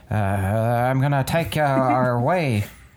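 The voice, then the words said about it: Imitated voice of robed stranger. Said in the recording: “Do your best impression of his voice. ... I'm not very keen with accents. ... That's pretty good.”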